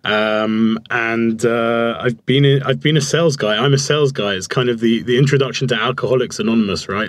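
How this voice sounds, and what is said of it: London British English accent. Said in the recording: “I grew up in London, in the UK, as you can tell from my accent”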